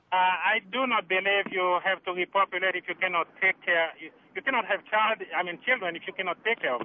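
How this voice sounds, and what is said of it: Caribbean accent. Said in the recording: “you have an accent. Are you from the Caribbean?”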